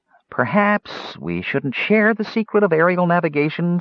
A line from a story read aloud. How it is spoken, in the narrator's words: Fitter said hesitantly